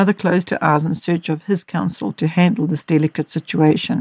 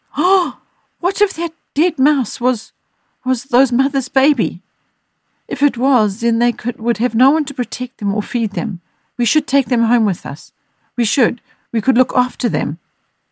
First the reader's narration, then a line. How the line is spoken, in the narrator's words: In a fearful exhortation, exclaimed